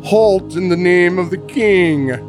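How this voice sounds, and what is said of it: Thurston Howell III character voice. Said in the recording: “Was that a Charleston accent? ... No, I was trying to emulate more like Thurston Howell III.”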